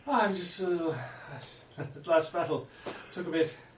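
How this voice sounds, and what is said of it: Breathless, out-of-breath speech. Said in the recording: “Why are you so out of breath?”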